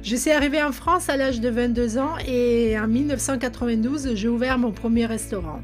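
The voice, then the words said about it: Italian accent in French. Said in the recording (French): “je suis italienne ... cet accent euh, bizarroïde”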